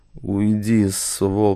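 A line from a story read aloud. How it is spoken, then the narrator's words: Hoarse wheeze. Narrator (Russian): прохрипел Шурик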